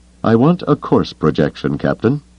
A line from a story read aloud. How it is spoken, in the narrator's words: Thrawn said, his voice cold but steady